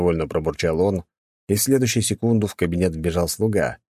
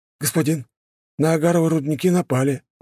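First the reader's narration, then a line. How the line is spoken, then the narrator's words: Hesitant frightened servant. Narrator (Russian): неуверенно проговорил перепуганный слуга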